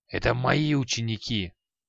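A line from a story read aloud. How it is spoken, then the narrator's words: Old man hissing. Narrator (Russian): прошипел старик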